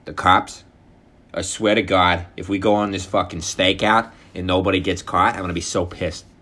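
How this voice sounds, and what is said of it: Imitated Boston accent. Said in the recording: “everyone talks like this ... The fucking Boston accents.”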